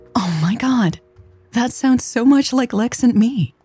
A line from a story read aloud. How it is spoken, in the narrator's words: she gasped